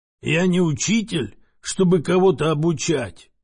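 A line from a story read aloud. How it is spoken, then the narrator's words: Hoarse man grumbling. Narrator (Russian): хрипло пробурчал мужчина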